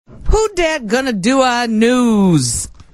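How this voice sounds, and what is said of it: Put-on New Orleans 'who dat' accent. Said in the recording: “These are the sexiest accents ... How was that? ... That was excellent ... That was really good. Really good.”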